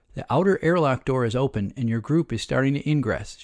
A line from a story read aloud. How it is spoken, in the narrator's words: she said